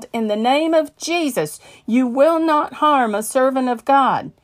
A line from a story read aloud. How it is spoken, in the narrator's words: I yelled